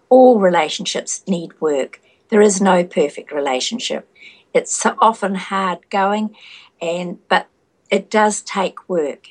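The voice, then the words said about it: Noticeable accent. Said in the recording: “Is it the accent? Is it the accent or the wisdom? ... It's the accent”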